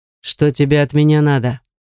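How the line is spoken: Menacing question. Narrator (Russian): грозно спрашивает он

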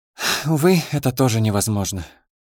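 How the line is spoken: Sincere sigh. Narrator (Russian): непритворно вздохнула Дита

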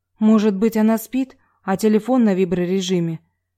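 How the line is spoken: Timid question. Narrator (Russian): робко спросила медсестра

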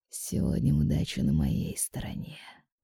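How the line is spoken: Muttering. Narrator (Russian): пробормотал он

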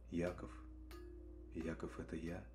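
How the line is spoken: Whispered. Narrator (Russian): прошептал

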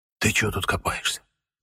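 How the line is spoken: Whisper. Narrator (Russian): прошептал

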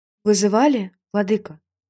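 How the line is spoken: Soft question. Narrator (Russian): мягко спросила

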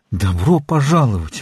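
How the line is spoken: Exclaiming. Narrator (Russian): воскликнул он

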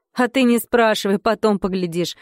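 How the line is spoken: Father laughing. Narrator (Russian): сказал отец и рассмеялся

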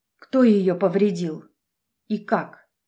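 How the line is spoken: Plain question. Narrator (Russian): наконец спросила

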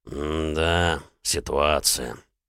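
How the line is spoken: Drawled. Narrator (Russian): протянул Залман

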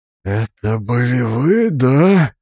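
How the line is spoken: Whispered. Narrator (Russian): прошептал он

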